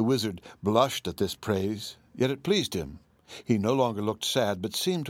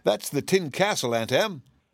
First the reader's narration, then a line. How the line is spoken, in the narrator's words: cried Dorothy